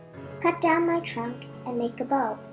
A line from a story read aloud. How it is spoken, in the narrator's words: said the tree